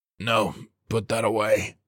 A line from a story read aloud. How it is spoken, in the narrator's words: he rasped